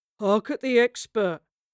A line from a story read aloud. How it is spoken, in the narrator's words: the third voice cooed to peals of laughter